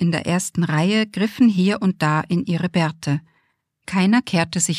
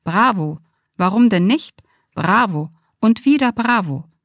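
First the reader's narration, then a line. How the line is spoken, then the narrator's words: Calling out amid applause. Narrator (German): Irgendwo klatschte jemand und rief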